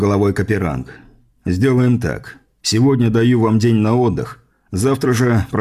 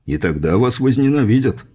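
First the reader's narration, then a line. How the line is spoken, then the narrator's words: Chuckling. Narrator (Russian): хохотнул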